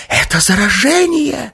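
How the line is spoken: Rasping. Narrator (Russian): захрипела она

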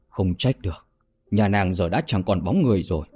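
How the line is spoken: Astonished, sighing repeatedly. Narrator (Vietnamese): Yến Tử Phi kinh ngạc liên tục thở dài

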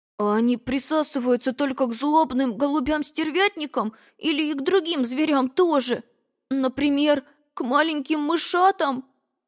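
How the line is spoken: Timid babbling. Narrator (Russian): пролепетал

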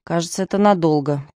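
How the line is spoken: Mutter. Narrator (Russian): пробормотал лейтенант

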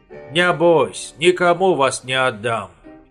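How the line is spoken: Plain. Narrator (Russian): сказал он им

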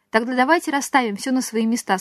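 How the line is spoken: Plain. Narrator (Russian): сказала она

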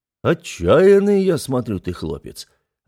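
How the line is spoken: Approving low rumble. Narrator (Russian): одобрительно прогудел мой собеседник

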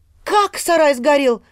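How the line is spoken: Sharp cry. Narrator (Russian): вскрикнула Катя

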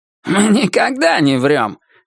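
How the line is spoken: Offended snapping. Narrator (Russian): обиженно огрызнулся мистер Крупп

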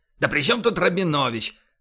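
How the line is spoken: Exclaimed. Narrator (Russian): воскликнул Боровский

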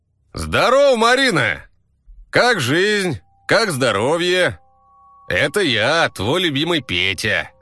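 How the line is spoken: Shouted. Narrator (Russian): Закричал я ей

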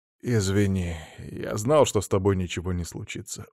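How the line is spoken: Tired reply. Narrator (Russian): устало ответил Тион

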